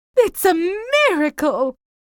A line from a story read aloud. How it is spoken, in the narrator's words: cried the Duchess